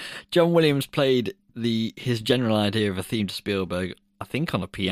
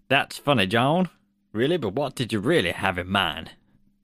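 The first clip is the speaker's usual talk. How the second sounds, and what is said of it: Put-on American accent. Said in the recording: “here's my American accent ... That's an American accent, isn't it?”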